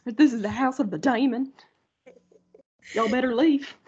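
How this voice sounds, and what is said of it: Put-on Southern accent. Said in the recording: “the crazy accent ... That's southerner.”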